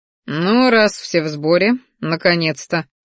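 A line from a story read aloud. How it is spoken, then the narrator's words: Snorting. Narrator (Russian): хмыкнул Салдар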